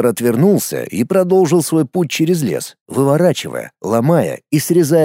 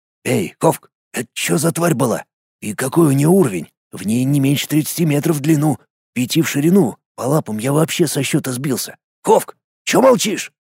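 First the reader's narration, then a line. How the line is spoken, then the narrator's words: Quiet rapid chatter. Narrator (Russian): лидер общины охотников тихо затараторил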